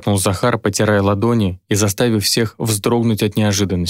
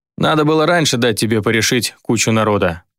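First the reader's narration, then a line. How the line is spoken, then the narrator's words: Wry snort. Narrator (Russian): хмыкнул Влад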